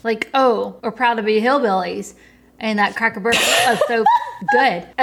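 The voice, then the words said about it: Full-blown Southern country accent. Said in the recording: “I don't know what happened to my accent just now ... occasionally goes full blown country ... She's mastered the accent somehow.”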